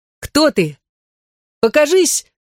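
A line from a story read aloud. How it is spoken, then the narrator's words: Children shouting together. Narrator (Russian): крикнули вместе ребята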